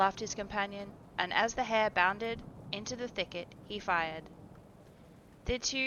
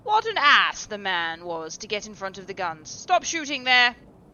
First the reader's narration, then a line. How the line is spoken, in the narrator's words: he called at the top of his voice